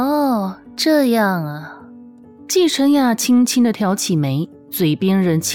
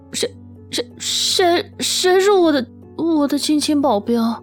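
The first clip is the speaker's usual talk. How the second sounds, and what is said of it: Stammering voice trailing off quieter. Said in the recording (Chinese): “的声音越说越小声”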